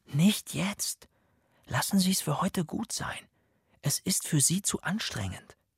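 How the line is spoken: Soft whisper. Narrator (German): flüsterte ich ihm leise zu

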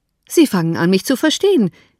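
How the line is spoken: Calling out. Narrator (German): rief Bingley

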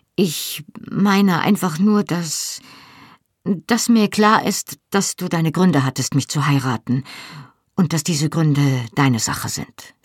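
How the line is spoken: Hasty addition. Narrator (German): fügte ich hastig hinzu

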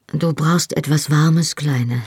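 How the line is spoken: Calm. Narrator (German): sagte er ruhig

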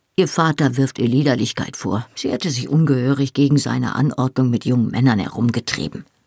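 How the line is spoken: Murmured. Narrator (German): murmelte Mrs

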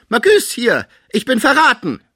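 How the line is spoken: Sick man crying out. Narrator (German): der Kranke rief

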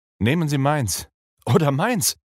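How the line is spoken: Called out. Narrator (German): rief Arthur

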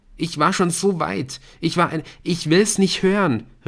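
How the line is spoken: Calling out. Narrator (German): rief Nick

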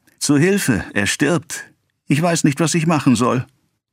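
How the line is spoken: Distraught cry. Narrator (German): kam 5 Tage darauf die Löwenwirtin ganz verstört gelaufen und rief

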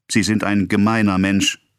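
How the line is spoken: Indignant exclamation. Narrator (German): rief sie aus

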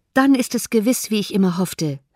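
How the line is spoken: Called out. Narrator (German): rief Jane

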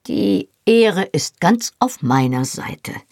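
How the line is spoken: Slightly hoarse. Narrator (German): sagte ein wenig heiser

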